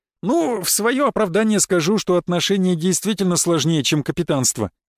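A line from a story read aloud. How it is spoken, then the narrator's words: Cheerful. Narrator (Russian): весело произнес Леон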